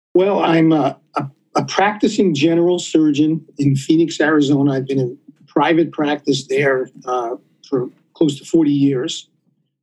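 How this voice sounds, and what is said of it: New York accent. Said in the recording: “I'm originally, you probably could tell by my accent, I'm originally from New York. ... that's not an Arizona accent.”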